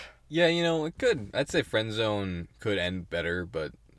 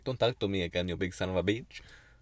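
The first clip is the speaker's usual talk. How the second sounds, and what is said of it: Put-on Russian-like accent. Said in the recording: “What accent is that? ... Russish? ... Kind of Russian?”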